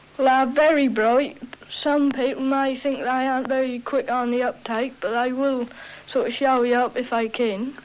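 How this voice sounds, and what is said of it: Norfolk English accent. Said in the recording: “some people think we Norfolk lads are country yokels ... Are you going to try to lose your accent?”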